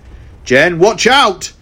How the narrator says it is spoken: shouted the Red Time Force Ranger

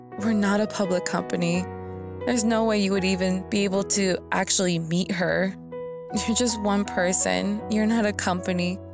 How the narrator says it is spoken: I laughed a little and said

